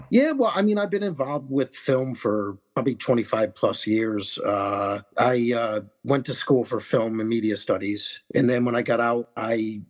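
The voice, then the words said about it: New York accent. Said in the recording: “I get told I sound like I'm from New York. I have a New York accent.”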